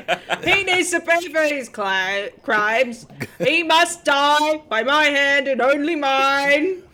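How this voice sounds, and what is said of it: Loud shouting, very raised voice. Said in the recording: “has never whispered in her life. ... We can talk in a whisper. ... What if we speak up? Inside voices? ... he hears the yelling from across the room”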